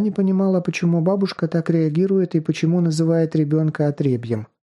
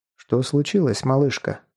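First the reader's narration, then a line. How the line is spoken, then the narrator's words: Warm, smiling. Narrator (Russian): он ласково улыбнулся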